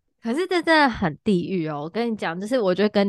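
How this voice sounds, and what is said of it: Usual voice. Nothing is said of it.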